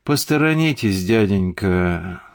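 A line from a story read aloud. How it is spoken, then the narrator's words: Bored voice. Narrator (Russian): скучным голосом сказал семикопный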